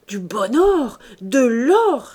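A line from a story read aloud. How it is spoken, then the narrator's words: Exclaiming. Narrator (French): s'écria-t-il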